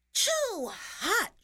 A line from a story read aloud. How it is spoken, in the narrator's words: she cried